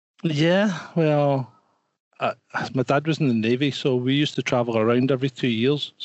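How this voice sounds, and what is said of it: Mixed Scottish and Geordie accent. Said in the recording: “you sound like a mix of a Scottish bloke and a Geordie.”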